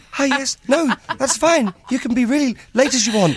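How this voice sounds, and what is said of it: Posh put-on phone voice. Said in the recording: “I go all posh ... Phone voice.”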